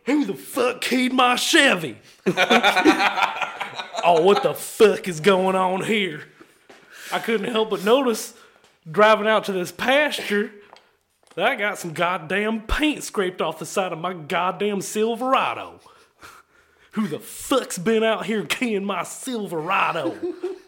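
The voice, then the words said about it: Hokey American accent, angry and drunk. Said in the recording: “this one I need to be more angry, not intimidating ... pissed off, also intoxicated ... Just American ... this is gonna be a hokey, stupid accent”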